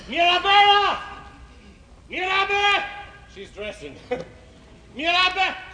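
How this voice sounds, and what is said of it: Yelling loudly. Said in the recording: “Why are you yelling so?”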